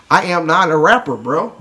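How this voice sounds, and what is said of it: Imitates young rappers' voice. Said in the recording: “this is my best impression... Some of the kids that talk”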